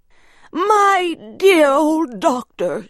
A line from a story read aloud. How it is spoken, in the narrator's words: she cried